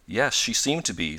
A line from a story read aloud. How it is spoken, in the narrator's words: said Mrs